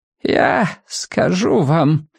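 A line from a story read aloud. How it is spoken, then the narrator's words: Creaky old woman's voice. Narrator (Russian): проскрипела старая женщина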